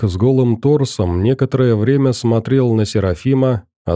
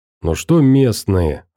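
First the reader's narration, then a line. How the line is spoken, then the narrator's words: Irritated man. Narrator (Russian): раздраженно сказал мужик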